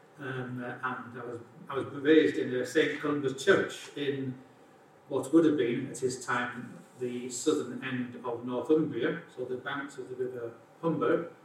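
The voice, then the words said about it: Non-local accent. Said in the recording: “I may tell from my accent that I'm not from around here.”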